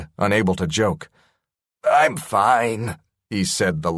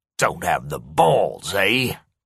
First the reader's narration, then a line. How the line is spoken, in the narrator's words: Corey sneered